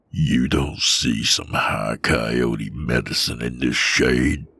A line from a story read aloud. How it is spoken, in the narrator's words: He growled through his teeth in my face